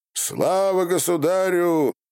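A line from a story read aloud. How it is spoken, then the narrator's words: Crowd shouting. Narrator (Russian): кричали казаки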